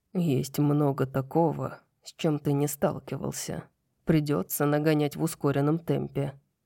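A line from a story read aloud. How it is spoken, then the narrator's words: Grim smirk. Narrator (Russian): мрачно усмехнулся Хант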